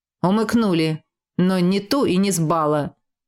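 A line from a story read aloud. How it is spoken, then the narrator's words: Grumbling. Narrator (Russian): проворчал брюнет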